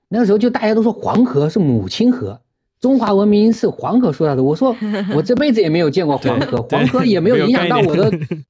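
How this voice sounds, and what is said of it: Slight southern Chinese accent. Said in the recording (Chinese): “我是南方人啊，虽然我不是上海人，但我是南方的。所以有时候你们听口音也会听出一点”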